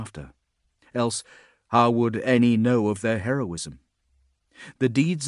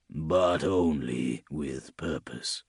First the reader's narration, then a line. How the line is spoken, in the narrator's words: murmured